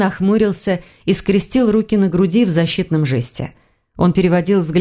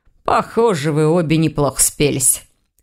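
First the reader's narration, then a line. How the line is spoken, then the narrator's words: Snorting. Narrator (Russian): хмыкнул он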